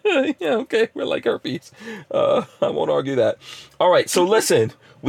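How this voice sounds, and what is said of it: Usual voice. Nothing is said of it.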